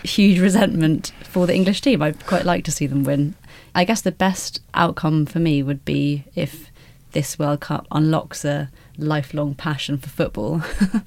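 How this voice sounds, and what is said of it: Scottish accent. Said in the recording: “I also grew up in Scotland... Hence the accent.”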